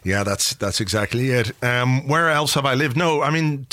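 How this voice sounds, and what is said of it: Dublin Irish accent. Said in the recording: “as a fellow North Dublin man, I'm often fascinated by your accents”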